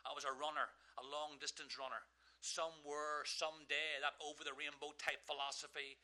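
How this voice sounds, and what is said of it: Irish accent. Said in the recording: “I'm standing in America with an Irish accent.”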